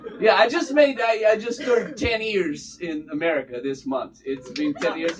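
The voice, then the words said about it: Strong Bulgarian accent. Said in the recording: “I'm a Bulgarian... that accent that could scare a vulture off of a carcass”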